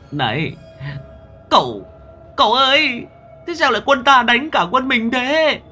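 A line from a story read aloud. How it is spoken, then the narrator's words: Whimpering, on verge of tears. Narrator (Vietnamese): Long Đầu Đất mếu máo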